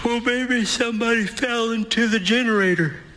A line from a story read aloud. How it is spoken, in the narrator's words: Eric stifles a yawn as he answers